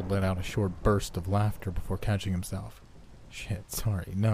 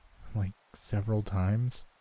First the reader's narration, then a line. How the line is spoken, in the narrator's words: He sighed